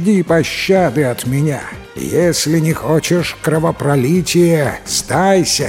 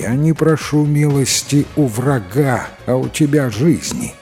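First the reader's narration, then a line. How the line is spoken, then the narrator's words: Plain. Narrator (Russian): ответил Татул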